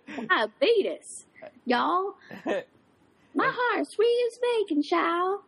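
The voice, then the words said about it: Put-on Southern accent. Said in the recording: “start talking in a southern accent”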